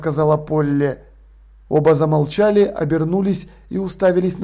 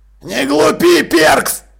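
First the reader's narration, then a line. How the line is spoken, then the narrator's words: Growling. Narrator (Russian): рыкнул Джекрам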